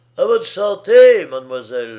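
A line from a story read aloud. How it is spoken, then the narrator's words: Young man shouting. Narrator (French): lui cria un jeune ouvrier de fabrique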